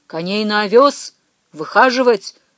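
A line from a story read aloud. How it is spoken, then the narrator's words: Stern command. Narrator (Russian): строго повелел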